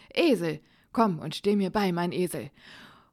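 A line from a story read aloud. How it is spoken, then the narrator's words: Loud cautious call. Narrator (German): rief aus seiner Vorsicht heraus mit lauter Stimme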